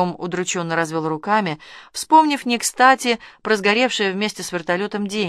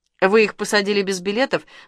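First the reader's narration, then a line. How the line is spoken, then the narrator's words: Stern question. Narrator (Russian): строго спросила Ольга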